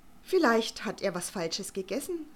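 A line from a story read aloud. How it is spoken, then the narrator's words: Plain. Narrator (German): sagte Herr Vogel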